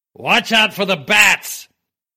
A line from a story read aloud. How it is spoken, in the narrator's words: he shouted over his shoulder